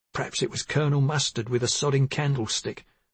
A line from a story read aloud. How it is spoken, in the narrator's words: she muttered